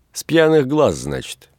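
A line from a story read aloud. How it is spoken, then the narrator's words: Sarcastic. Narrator (Russian): язвительно сказала Приполовенская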